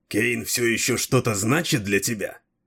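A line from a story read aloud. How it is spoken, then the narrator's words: Jealous, through gritted teeth. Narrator (Russian): процедил Дрибок, пораженный уколом ревности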